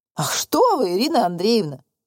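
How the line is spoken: Laughing. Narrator (Russian): рассмеялся Михаил Семенович

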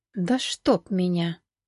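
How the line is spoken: Annoyed whisper. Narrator (Russian): с досадой прошептала Рита

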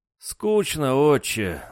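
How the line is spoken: Sighing. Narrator (Russian): вздохнул Дрюня

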